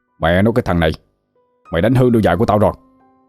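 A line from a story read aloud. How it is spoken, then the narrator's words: Angry yelling. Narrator (Vietnamese): ông ta liền tức giận quát tháo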